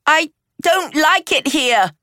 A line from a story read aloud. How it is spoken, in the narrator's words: she shouted